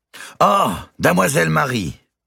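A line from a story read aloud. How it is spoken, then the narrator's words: Exclaiming. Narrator (French): s'écria Ricardo, le premier commis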